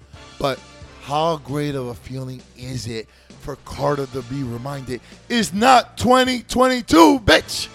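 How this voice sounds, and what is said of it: Rough, sore-throated voice. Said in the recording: “I was told today that my throat was sore... My voice is changing.”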